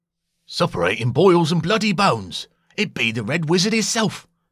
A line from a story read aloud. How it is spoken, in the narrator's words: exclaimed a second troll